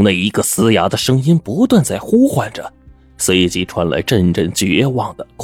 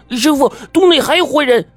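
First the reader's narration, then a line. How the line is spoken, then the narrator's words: Shouting. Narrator (Chinese): 我叫嚷着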